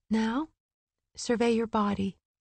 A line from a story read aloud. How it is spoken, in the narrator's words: Gwyn said softly